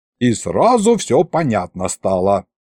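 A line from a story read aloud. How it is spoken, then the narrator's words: Muttered under breath. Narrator (Russian): пробурчал я под нос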